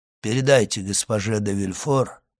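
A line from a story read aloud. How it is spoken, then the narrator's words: Plain. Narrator (Russian): ответил он наконец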